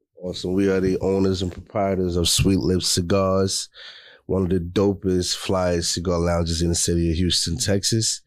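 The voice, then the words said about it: New York Queens accent. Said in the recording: “I pick up an accent. ... I'm from Queens”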